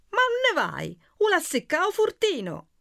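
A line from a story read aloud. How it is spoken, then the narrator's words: Shrill, wounded pride. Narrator (Italian): Agesilao strillava, profondamente ferito nell'amor proprio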